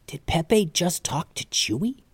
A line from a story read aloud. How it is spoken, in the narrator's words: Calvin whispered to Mallory